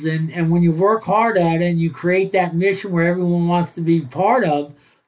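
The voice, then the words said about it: Northern New Jersey accent. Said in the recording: “I can tell from your accent, and the American listeners can tell ... I'm born and raised in northern New Jersey, about 6 miles outside of New York City”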